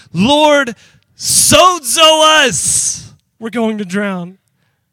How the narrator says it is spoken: the disciples shouting

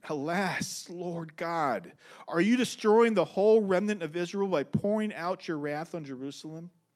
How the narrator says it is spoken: I fell on my face and cried, saying

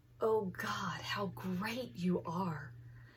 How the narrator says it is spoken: Praise whispering behind me

